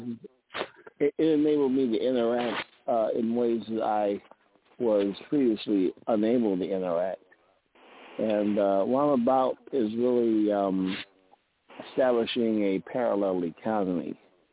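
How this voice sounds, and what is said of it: Muffled voice. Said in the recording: “He sounds really muffled”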